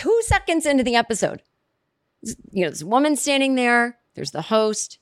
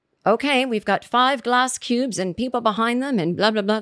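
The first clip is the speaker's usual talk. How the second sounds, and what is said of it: Put-on British accent. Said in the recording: “This is my British accent.”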